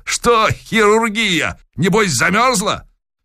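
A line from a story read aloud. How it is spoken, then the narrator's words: Cheerful shout. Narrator (Russian): Захарыч весело прокричал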